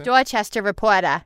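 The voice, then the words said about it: Put-on Boston accent. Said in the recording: “Can you say that in a Boston accent?”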